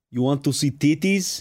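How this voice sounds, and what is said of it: Bad Nigerian accent sounding Russian. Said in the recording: “they sound like Russians that go... I can't do a good Nigerian accent... That sounded Russian.”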